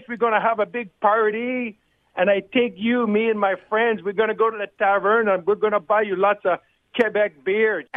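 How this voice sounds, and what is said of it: Badly faked Quebec French accent. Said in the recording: “Helps if you can get somewhere within a few countries of the accent that you're trying to do.”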